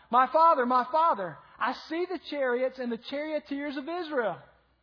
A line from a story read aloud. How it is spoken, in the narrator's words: Elijah cried out